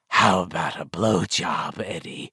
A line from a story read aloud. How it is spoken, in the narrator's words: the apparition croaked, grinning with its remains of a mouth